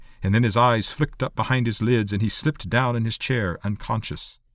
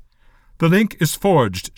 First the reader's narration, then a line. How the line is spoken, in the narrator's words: said formally